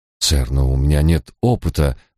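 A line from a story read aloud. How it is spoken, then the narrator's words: Confused mutter. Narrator (Russian): растерянно пробормотал Ликон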